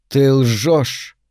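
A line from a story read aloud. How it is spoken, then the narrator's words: Breathed through twisted lips. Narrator (Russian): выдохнули алые искривленные губы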